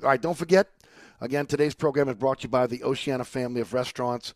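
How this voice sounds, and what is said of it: Strained, struggling voice. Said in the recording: “I just have to apologize for my voice. I'm struggling a little bit here”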